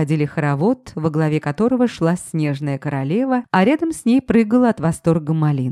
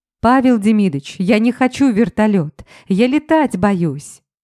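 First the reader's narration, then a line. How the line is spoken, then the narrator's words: Loud outcry. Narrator (Russian): выкрикнула я громко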